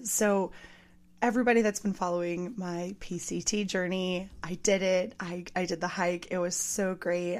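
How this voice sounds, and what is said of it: Slightly hoarse, worn voice. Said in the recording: “my voice is a little gone”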